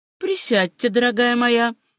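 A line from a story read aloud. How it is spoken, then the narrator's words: Hasty, sugary ingratiating voice. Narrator (Russian): поспешил он добавить приторно-вкрадчивым голосом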